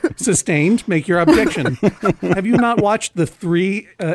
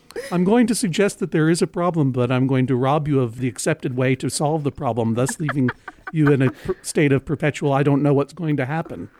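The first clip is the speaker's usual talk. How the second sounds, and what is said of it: Imitates another person's voice. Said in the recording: “my terrible imitation”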